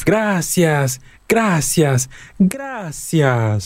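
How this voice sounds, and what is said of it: Increasingly loud repeated thanks. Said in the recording (Spanish): “en tono cada vez más alto”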